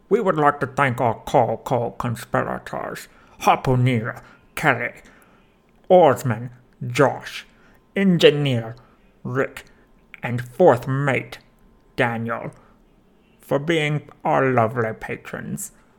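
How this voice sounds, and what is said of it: Exaggerated put-on accent. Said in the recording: “I have adopted this ridiculous accent for the Patreon sign-off”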